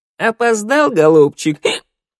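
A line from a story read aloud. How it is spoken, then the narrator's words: Giggle. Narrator (Russian): Хихикнула Шныряла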